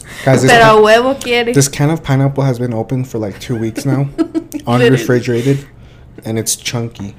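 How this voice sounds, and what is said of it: Tired, monotone voice. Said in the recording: “my voice is so monotone”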